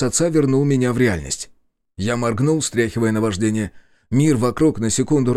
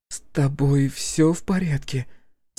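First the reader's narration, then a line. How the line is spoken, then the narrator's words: Quiet question. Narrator (Russian): тихо спросила Василиса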